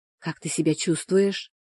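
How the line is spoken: Whispered question. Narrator (Russian): снова шепотом спросила она

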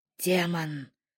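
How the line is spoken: Hiss from outside. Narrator (Russian): раздалось шипение с улицы

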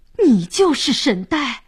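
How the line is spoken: Astonished shout in unison. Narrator (Chinese): 三位神明惊讶地齐声喊道

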